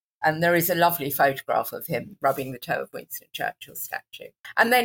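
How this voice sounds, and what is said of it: Usual voice. Nothing is said of it.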